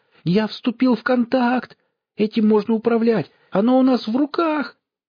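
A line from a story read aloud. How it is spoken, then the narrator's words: Near-howling. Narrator (Russian): почти взвыл заяц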